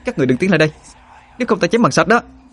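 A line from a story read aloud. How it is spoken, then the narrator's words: Shouting. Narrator (Vietnamese): Họa Hương ... mà hét lên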